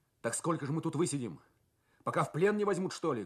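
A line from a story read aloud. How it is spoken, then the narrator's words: Angry voice. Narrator (Russian): говорит он злым голосом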